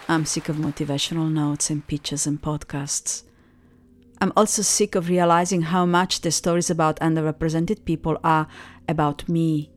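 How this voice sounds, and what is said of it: Cute non-native English accent. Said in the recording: “Have you noticed my accent? ... my cute accent”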